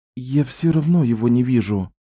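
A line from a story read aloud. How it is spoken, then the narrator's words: Irritated exhale. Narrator (Russian): раздраженно выдохнула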